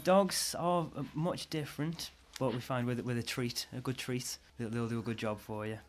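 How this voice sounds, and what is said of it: Stoke-on-Trent Potteries accent. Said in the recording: “You've got quite a Potter's accent ... the accent is natural”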